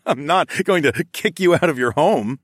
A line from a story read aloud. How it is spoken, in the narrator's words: I chuckled